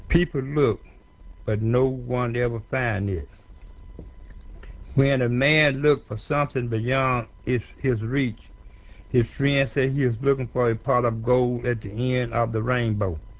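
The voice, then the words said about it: African-American Mississippi accent. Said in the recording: “That is an African-American speaking ... There are tones in his accent that I'm not sure where he's from ... He's from Mississippi.”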